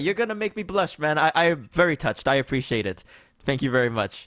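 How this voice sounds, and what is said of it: Energetic radio-style voice. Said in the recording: “You have the best radio voice out of any podcaster I've heard. And your energy, man.”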